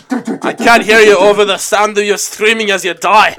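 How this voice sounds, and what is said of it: Inaccurate put-on accent. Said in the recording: “I don't know why I wrote that accent ... So not accurate.”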